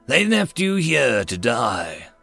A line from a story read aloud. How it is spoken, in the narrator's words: big black biped rumbled in overspeech